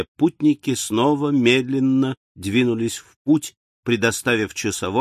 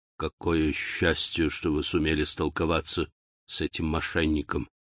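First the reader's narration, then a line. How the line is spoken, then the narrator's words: Whisper. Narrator (Russian): прошептал разведчик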